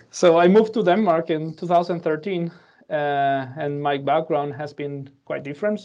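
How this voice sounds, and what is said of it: Spanish accent in English. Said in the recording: “I'm the second Spanish of today, uh, so you'll also hear my accent although many people think that I have a Danish accent ... every time I speak in English, they have a Danish accent that sounds something funny for a Spanish person”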